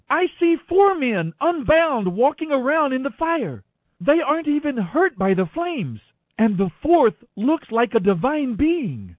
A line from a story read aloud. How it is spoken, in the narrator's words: Nebuchadnezzar shouted